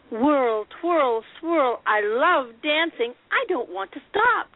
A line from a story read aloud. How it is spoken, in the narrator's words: Darlie cried